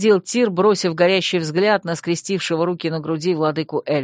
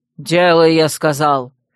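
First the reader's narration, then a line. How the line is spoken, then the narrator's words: Irritated bark. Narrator (Russian): рявкнул Тириниэль, в раздражении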